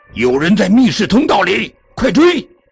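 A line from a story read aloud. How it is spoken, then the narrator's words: Breathless, nervous. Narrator (Chinese): 珍妮紧张的气儿都喘不过来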